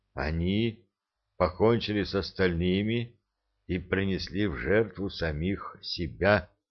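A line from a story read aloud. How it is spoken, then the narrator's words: Muffled, hollow voice. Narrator (Russian): глухо сказал стоящий позади Энет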